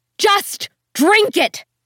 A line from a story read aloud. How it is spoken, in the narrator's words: Kim shouted